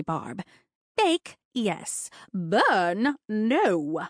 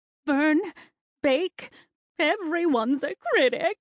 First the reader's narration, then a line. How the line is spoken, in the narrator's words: cried Auntie Barb, bursting into tears